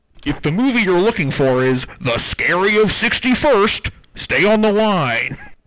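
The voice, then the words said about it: Moviefone announcer voice impression. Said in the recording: “I don't know why I wanted to do the movie phone. ... You're slamming voices out of the park here. ... I can't stop doing the voices.”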